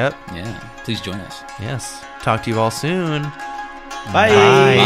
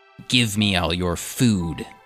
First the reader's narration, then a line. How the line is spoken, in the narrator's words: the imp hisses